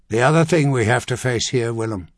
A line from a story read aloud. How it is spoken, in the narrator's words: Clintan continued flatly